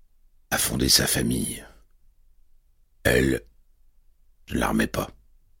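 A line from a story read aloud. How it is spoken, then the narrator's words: Murmured. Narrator (French): murmura Lawrence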